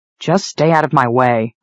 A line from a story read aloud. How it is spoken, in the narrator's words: I growled